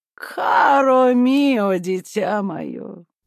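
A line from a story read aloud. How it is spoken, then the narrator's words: Sighing. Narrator (Russian): вздохнула она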